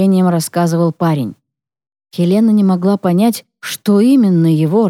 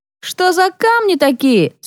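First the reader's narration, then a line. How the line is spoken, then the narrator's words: Question after loud slurp. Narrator (Russian): спросил кто-то, громко отхлебнув вина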